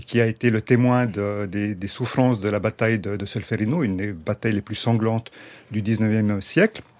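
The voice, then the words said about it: Swiss French accent. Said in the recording (French): “votre accent, là, c'est, ça vient d'où ? ... C'est un accent suisse. ... C'est un mélange de tout plein d'origines. ... Italienne et...”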